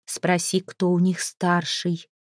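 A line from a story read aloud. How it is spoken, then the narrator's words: Whisper in northern tongue. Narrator (Russian): шепнула она Свену на северном языке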